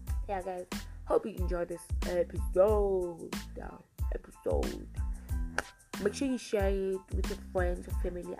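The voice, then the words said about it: Sick-sounding voice. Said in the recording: “my voice is crossing, my voice is gonna change over time because I'm sick right now”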